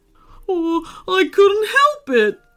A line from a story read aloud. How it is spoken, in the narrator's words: wailed Phoebe